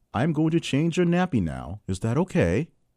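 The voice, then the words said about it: Put-on accent. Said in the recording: “You like my accent? How's my accent?”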